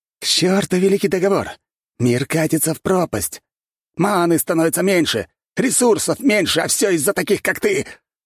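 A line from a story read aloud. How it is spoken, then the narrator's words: Shouted. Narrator (Russian): выкрикнул человек в рванье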